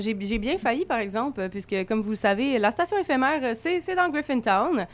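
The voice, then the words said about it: Montreal French accent. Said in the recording (French): “mon accent bien franco franco-montréalaise”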